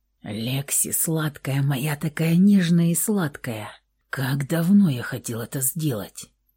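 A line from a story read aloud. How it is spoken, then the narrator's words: Hoarse whisper. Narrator (Russian): Его хриплый шепот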